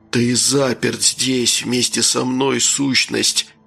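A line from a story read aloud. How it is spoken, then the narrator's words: Sudden weak voice. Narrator (Russian): неожиданно заговорил слабым голосом человек-тень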